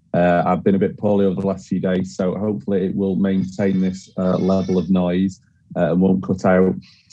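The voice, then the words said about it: Husky voice. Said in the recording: “my voice is a bit husky tonight”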